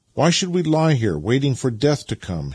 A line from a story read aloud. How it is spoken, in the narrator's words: exclaimed as a new idea suddenly struck him